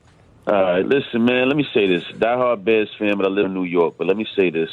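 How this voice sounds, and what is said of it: Strong Brooklyn New York accent. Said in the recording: “New York accent really strong on ... bro. You hear that? ... That's straight Brooklyn”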